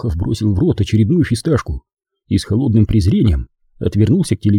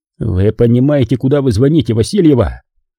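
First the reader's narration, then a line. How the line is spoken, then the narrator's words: Barked. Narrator (Russian): рявкнул Иванов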